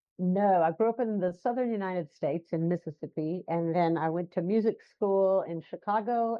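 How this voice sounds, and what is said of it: Non-London accent. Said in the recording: “we can tell by the accent you live in London, but you're not a Londoner.”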